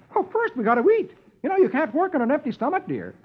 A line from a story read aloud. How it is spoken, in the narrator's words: Dagwood replies cheerfully